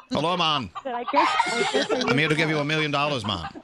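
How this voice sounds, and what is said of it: Put-on Jamaican accent. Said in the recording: “Jamaican ... I like this accent.”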